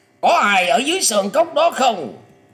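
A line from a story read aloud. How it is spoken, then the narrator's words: Old man calling loudly. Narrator (Vietnamese): lão ta bèn to tiếng gọi rằng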